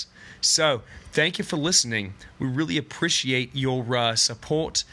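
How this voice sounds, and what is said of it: Fake Australian accent. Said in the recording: “someone who's got an Aussie accent ... Aussies that are from that country can tell that my accent is total bullshit ... but it sounds really good, right, to the untrained ear?”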